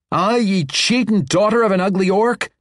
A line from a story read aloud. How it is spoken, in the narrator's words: Tanner Britches howled